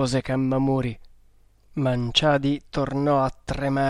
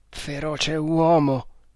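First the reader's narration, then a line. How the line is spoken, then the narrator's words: Stammered. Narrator (Italian): balbettò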